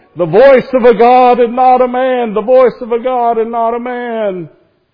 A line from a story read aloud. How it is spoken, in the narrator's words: they kept shouting